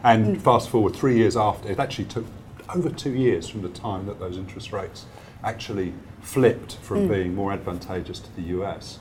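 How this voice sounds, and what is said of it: English accent. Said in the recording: “I'm still trying to kick the habit of the English accent. ... But beautiful.”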